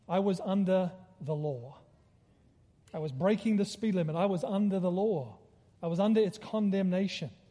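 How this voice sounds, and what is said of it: Australian accent. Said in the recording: “He heard my accent. I was from Australia.”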